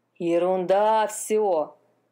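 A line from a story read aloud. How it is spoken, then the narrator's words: Plain. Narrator (Russian): сказал конёк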